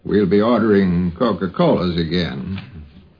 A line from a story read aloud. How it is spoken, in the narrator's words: Carl said in his slow drawl